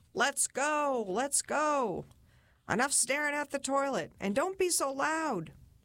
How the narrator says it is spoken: Chuck yelled

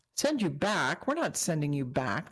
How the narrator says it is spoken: Denise said

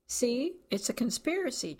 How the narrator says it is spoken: Charlie said

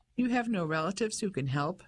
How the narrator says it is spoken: Dora asked

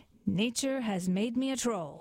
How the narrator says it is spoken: he said

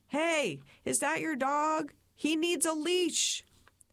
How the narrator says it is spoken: I just shouted

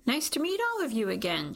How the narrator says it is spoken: says brightly

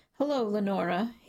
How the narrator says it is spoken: he says

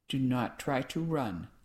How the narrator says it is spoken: I said in a low voice that did not carry beyond her ears

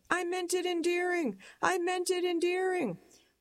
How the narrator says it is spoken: I'm shouting

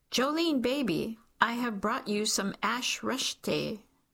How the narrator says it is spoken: a yelled

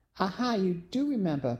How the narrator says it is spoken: Penny exclaimed before letting out a yip

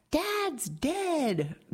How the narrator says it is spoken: Jackie, informing relatives by phone that her father had died, winds up screaming

